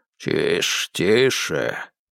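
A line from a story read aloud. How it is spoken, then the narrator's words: Grumbled. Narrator (Russian): пробурчал тот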